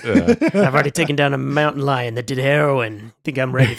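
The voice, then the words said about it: Put-on pirate accent. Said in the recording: “saying absurd things in a you know pirate accent.”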